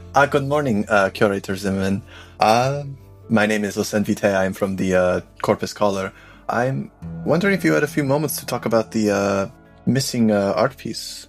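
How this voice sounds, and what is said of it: Put-on foreign accent. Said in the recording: “That's a Margothy accent, isn't it?”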